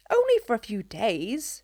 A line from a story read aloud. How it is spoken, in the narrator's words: she scoffed